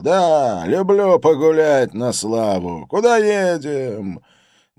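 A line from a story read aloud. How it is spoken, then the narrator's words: Manic giggling. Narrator (Russian): маниакально хихикал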